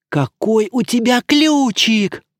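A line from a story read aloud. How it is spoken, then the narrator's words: Hissing voice. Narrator (Russian): проговорила каким-то шипящим голосом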